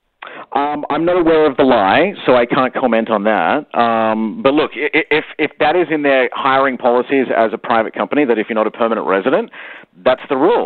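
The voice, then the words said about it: Slight non-native accent. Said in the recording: “you got a bit of an accent”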